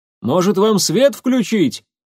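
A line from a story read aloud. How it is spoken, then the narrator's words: Guard shouting after someone. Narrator (Russian): крикнул ей вдогонку охранник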